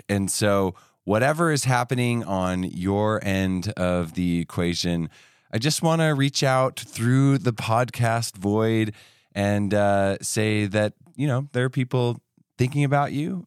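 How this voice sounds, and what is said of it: Voice sounds slightly off, sickly. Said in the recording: “my voice sounds a little bit different, and it's because I am just getting over being sick”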